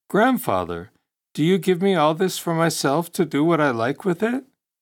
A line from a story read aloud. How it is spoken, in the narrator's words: The boy was taken aback by their profusion and exclaimed